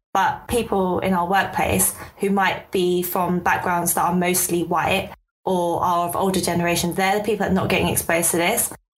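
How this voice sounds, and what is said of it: East London accent. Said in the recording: “my East London accent's really coming out”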